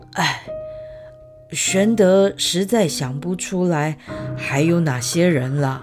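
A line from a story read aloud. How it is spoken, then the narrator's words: Sighing. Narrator (Chinese): 叹了一口气，说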